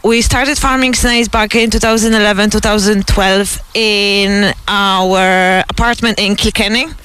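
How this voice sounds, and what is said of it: Polish accent in English. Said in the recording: “that's not a Carlow accent ... No, I'm pure Polish girl”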